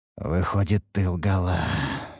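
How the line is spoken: Pained, breathless exhale. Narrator (Russian): выдохнул я, морщась от боли

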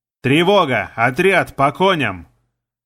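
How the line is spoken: Shouted. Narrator (Russian): Матерясь на все лады, я крикнул

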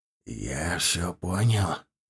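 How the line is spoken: Whisper. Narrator (Russian): прошептал Салим

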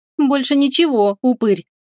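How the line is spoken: Mocking, taunting reply. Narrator (Russian): насмешливо с издевкой ответила за Фенриса Теруми

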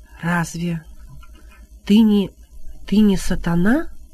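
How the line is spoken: Whispering. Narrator (Russian): прошептал отец Раок

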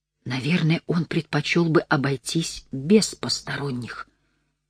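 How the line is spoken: Quiet. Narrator (Russian): тихо сказал Жан-Сир

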